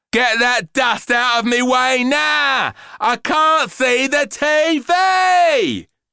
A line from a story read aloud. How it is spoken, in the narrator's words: she shouted